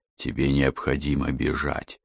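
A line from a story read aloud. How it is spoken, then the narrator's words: Exhausted whisper. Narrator (Russian): В полном изнеможении прошептал он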